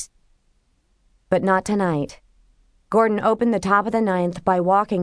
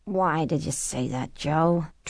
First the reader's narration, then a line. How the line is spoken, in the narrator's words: Tricia moaned